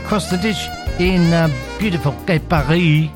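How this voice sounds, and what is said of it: Put-on French accent. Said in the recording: “That's a wonderful French accent of mine. It's fabulous, isn't it?”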